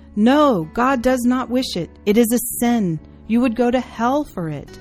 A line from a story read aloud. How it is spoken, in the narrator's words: She cried out